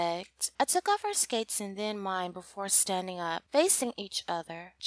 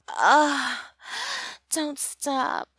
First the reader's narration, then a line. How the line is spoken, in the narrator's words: I moaned